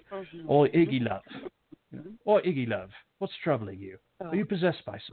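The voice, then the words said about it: Constantine impression with British accent. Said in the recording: “picturing Constantine with that, you know, dirty raincoat ... It's a bloody fucking accent.”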